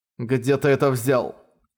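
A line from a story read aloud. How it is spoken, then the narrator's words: Cold question. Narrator (Russian): холодно спросил Мэнхао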